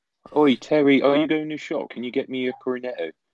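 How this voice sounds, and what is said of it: Put-on Bristolian English accent. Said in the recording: “Could you imagine Thierry Henry trying to understand a Bristolian accent? ... Bristol's a lot thicker of an accent.”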